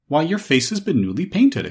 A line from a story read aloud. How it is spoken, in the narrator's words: exclaimed Dorothy